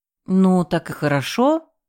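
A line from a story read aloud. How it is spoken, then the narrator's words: Uncertain squeak. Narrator (Russian): неуверенно вякнула я, не понимая, чем Артем недоволен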